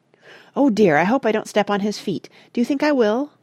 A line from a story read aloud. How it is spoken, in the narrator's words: Mona to say anxiously